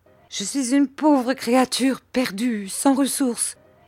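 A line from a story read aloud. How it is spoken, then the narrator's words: Crying out in distress. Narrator (French): s'écria Miss Gummidge en voyant ce désagrément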